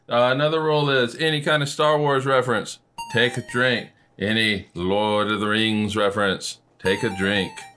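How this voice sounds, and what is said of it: Put-on Middle Earth fantasy accent. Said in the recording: “I like your Middle Earth accent there.”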